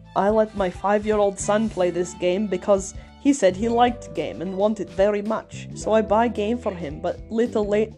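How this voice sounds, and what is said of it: Shrek voice slipping into Russian. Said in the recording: “it's gonna turn into Shrek voice. I'll just go with Shrek voice ... It's turning back to Russian ... I usually do a good Shrek voice.”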